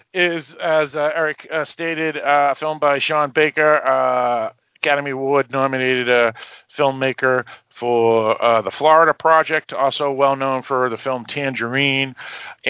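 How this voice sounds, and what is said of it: Boston accent. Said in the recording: “my Boston accent, I pronounce it a little differently than most people”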